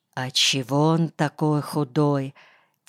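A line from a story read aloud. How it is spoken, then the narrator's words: Quiet question. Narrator (Russian): тихо спросил Тынымлен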